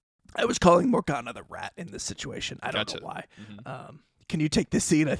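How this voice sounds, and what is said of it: Strained, failing voice. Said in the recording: “my voice is dying ... it that bad ... You're getting worse, and I don't want you to lose your voice entirely”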